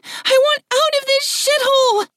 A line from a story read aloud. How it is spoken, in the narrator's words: squeaked the woman